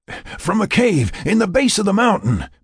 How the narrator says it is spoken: Mac panted, as they ran the last few meters to the ATUV

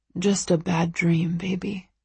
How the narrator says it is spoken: he murmurs

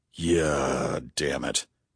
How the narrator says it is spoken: growled Bunny

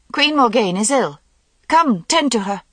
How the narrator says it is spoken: said Morgause sharply, with a catch of breath, then called out

